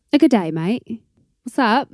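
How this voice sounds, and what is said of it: Poor put-on London British accent. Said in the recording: “How would you say what's up with a London British accent? ... It's wonderfully terrible.”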